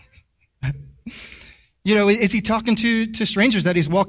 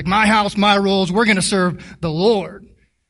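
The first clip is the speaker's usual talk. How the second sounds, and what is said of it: Put-on southern American accent. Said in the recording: “I don't know why I gave Joshua a southern accent”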